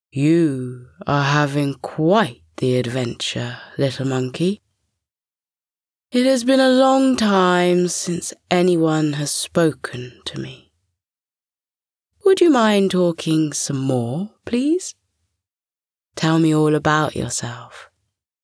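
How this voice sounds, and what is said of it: Deep voice of a tree. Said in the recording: “A deep voice came from within the tree.”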